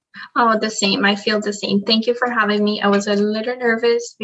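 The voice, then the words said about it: Noticeable foreign accent. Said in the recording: “my accent sometimes comes through ... your accent is beautiful.”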